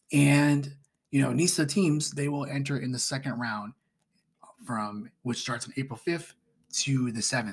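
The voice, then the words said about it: Strained, fading voice. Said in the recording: “excuse my voice is dying out here”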